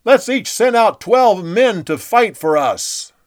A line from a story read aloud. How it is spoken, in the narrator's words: Abner yelled over to Joab